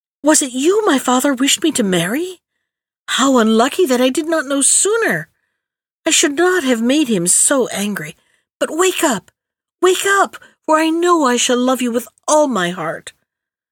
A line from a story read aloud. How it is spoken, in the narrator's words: cried